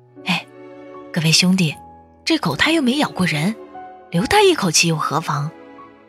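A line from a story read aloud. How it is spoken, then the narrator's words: Sighing, cautiously pleading. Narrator (Chinese): 路人叹了一口气，小心的打商量着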